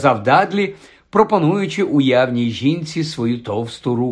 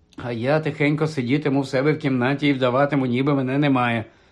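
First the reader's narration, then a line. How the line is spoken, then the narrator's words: Mutter. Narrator (Ukrainian): знову пробурмотів Гаррі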